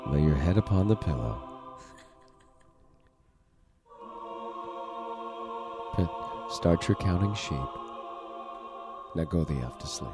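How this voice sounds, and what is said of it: Soft, quiet ASMR-style voice. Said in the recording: “kind of a quiet ... your ASMR voice”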